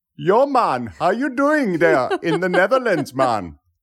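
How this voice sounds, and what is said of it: Put-on West Indian accent. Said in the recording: “It's my West Indian accent.”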